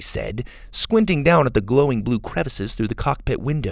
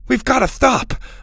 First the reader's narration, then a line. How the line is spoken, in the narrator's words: Max said desperately